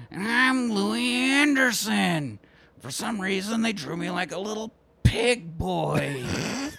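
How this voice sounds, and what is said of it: Imitates another person's voice. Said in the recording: “that's my Louis Anderson impression.”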